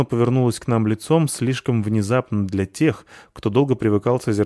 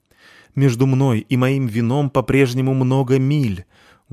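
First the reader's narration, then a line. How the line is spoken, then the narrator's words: Sorrowful exclamation. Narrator (Russian): горестно воскликнул Полчик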